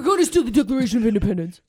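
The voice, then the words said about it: Imitates another person's voice. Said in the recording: “your impersonation”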